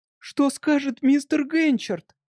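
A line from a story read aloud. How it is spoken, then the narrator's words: Exclaiming. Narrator (Russian): воскликнула Джеки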